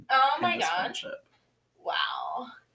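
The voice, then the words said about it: Put-on Valley Girl voice. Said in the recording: “You keep using that like Valley Girl voice.”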